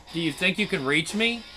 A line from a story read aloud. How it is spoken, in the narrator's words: Shimon scoffed at her, with his laugh